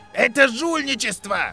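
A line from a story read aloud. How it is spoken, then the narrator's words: Yelled. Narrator (Russian): завопил Блейз Забини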